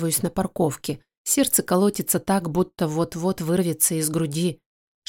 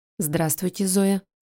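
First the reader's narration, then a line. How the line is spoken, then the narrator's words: Even voice. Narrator (Russian): говорит она ровным голосом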